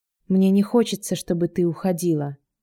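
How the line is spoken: Quiet, heavy sighing. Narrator (Russian): тихо произнес он, тяжело вздыхая

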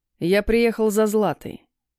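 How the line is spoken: Dry tone. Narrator (Russian): сообщил сухим тоном

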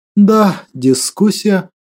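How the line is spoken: Sad reply. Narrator (Russian): грустно ответил

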